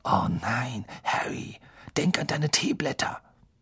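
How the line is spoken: Whispering. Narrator (German): Lavender und Parvati flüsterten

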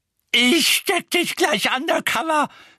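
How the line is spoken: Screaming. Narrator (German): schrie Mrs

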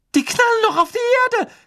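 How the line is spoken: Shriek. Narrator (German): kreischte Hermine

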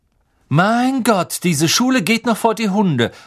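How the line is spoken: Loud. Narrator (German): sagte Malfoy laut

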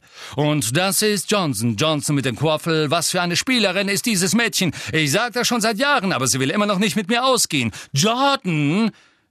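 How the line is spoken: Shouted. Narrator (German): schrie Professor McGonagall

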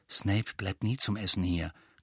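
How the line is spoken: Quiet explaining. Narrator (German): klärte Ron Harry mit leiser Stimme auf

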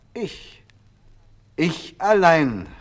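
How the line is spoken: Calling out. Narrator (German): rief die Hexe

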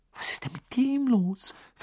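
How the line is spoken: Whisper. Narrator (German): flüsterte Hermine

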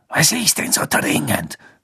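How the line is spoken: Hissed. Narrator (German): Snape zischen

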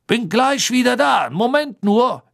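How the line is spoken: Gruff speech. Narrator (German): barsch zu den Kobolden sagen

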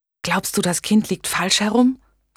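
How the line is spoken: Whispering. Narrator (German): flüsterte

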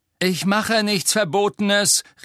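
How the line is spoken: Called after someone. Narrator (German): rief Harry ihr nach

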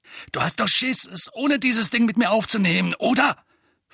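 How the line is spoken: Snarled. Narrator (German): fauchte Dudley

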